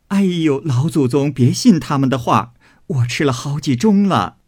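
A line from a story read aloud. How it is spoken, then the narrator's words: Hurried, laughing. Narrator (Chinese): 凤姐儿忙也进来笑说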